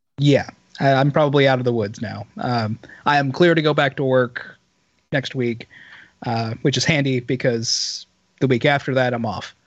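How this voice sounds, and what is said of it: Raspy, hoarse voice. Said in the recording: “losing my voice. As bad as I may sound now ... As bad as you sound now ... your voice has like this rasp to it. It's not like a, it doesn't sound like sick. You just have this rasp. It's like you've had a hard life.”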